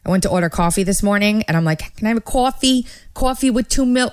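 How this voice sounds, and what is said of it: Strong New York accent. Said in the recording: “I'm in New York. My accent's coming out like, whoa, it's crazy.”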